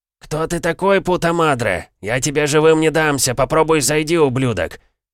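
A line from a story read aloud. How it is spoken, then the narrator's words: Shouting from a room. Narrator (Russian): Прокричали из комнаты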